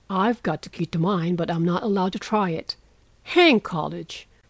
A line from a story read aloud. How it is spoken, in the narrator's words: muttered Laurie with an impatient sigh